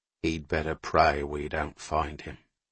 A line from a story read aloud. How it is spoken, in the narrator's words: Owen said quietly